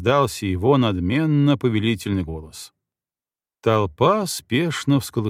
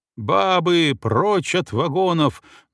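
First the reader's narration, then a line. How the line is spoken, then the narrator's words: Menacing shout. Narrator (Russian): грозно крикнул поручик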